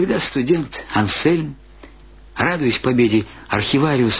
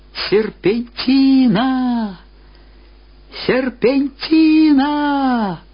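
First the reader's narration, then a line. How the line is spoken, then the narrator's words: Old archivist's loud shout. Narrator (Russian): Архивариус громко закричал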